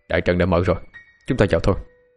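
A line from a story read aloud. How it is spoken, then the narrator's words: Cold, tense. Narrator (Vietnamese): Dương Phong lạnh lùng, tâm tình khẩn trương nói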